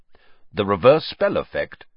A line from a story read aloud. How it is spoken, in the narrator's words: said Sirius sharply